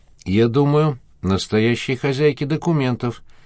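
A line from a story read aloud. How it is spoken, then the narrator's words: Calm reply. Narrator (Russian): спокойно ответил Горбатов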